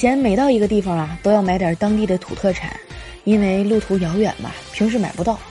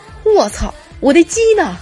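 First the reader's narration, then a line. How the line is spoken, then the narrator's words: Sudden anguished scream. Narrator (Chinese): 大叔突然惨叫了一声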